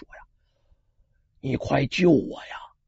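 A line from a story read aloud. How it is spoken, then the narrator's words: Hushed, low. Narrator (Chinese): 这红袍人压低声音，小声说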